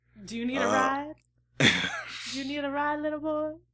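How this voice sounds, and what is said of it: Creepy 1970s driver character voice. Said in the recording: “doing his best impression of a 1970s Uber driver”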